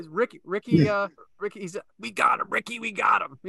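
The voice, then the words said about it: Poor Macho Man Randy Savage impression. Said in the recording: “worst Macho Man impression ever”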